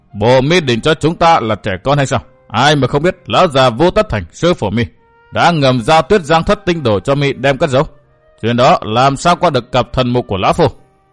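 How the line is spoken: Masked stranger, scornful laugh. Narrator (Vietnamese): Quái nhân bịt mặt cười nhạt

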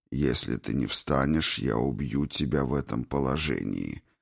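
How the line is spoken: Flat, even voice. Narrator (Russian): ровным голосом сообщил Горджелин

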